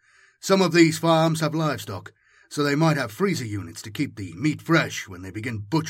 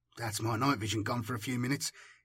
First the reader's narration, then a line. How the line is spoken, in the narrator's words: he muttered under his breath